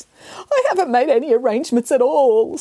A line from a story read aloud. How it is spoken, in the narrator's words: sobbed the cat